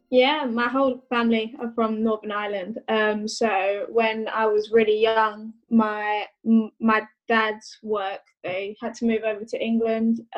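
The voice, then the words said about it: Southern English accent. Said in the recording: “I've always grown up in the south of England, hence the accent. ... you're not Northern Irish, you've not got the accent.”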